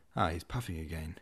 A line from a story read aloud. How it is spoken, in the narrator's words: muttered Tushin to himself